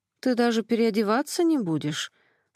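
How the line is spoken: Sleepy reply. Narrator (Russian): Сонно отозвалась Ксюша

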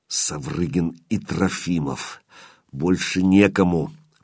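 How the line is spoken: Hateful hiss. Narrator (Russian): прошипел Калюжный, и в голосе его звучала такая ненависть, что становилось не по себе

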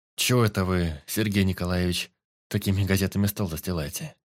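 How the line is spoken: Bewildered question. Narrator (Russian): как-то растерянно спросил Кольцов

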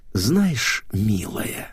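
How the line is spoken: Hissing. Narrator (Russian): прошипела Ната

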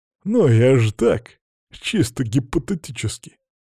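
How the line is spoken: Laughing. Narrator (Russian): посмеялся в ответ

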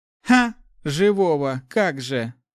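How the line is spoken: Chuckling. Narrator (Russian): хохотнул Ари

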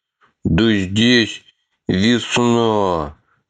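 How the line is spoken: Delighted drawl. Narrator (Russian): восторженно протянул Атхи

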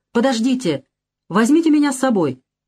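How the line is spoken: Shout. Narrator (Russian): Я крикнул

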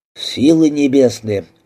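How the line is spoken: Exclamation. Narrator (Russian): воскликнул Фокс

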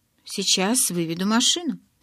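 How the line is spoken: Calm. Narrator (Russian): спокойно сказал Джейкоб

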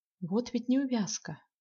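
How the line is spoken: Repeated sadly. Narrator (Russian): повторила она грустно

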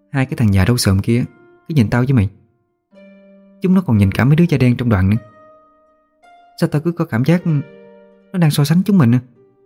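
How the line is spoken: Uneasy whisper. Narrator (Vietnamese): Cái Phượng cảm thấy bầu không khí gượng gạo, nó thì thầm nói với tôi

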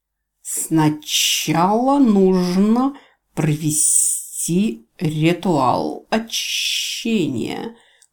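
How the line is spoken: Hiss. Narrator (Russian): прошипел змей-поклонник

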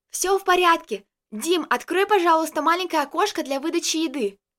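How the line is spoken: Shouted through a door. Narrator (Russian): крикнула через дверь

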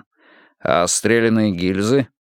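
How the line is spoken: Chuckling. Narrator (Russian): Бьёрнстад хохотнул

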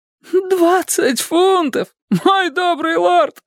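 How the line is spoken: Sudden cry. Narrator (Russian): вскрикнул Кондул

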